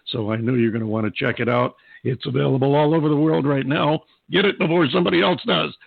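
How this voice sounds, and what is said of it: Hoarse, strained voice. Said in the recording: “I'm losing my voice again”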